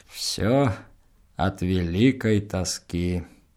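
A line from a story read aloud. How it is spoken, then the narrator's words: Grumbling. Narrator (Russian): Антипа ворчал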